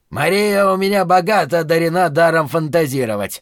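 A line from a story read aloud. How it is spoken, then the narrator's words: Angry outburst. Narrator (Russian): злобно взорвался Шелли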